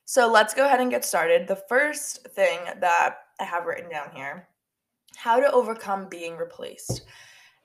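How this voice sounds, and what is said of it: Stuffy, nasal congested voice. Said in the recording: “my voice sounds a little bit stuffy or nasally or just like kind of gross ... I had a really bad allergy attack this morning ... my voice is still recovering”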